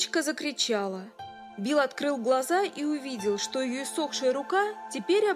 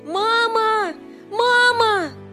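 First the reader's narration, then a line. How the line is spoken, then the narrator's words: Sick girl's piercing scream. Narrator (Russian): Девочка, только что прикованная болезнью к постели, пронзительно закричала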